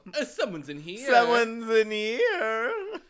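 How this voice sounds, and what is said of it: Carnival barker John Mulaney impression. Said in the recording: “Have you ever heard John Mulaney do that? ... what kind of carnival barker? ... Where did that accent even come from?”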